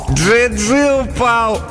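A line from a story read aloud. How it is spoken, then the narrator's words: Joyful child. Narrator (Russian): радостно говорит мальчик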